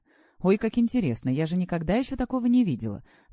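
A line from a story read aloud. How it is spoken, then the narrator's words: Excited exclamation. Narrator (Russian): воскликнула Наташа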